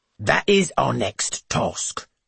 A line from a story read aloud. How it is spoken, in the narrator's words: grunts Mrs